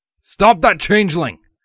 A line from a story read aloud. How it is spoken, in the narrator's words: Vladimir barked out